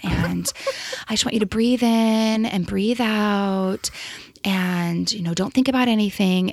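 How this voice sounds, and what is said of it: Soft meditative voice. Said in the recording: “they get into their like soft little like meditative voice”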